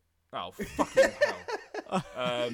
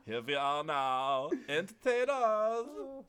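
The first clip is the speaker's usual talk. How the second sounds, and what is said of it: Singing impression of a rock singer. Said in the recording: “my Kurt Cobain impression ... I think I'd find it was spot on.”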